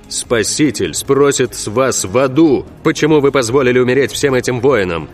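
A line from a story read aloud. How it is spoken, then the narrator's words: Impatient barking shout. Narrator (Russian): рявкнул потерявший терпение Рауль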